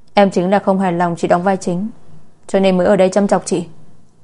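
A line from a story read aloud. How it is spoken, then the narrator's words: Angry. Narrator (Vietnamese): Lạc Gia Tuyết tức giận đỏ mặt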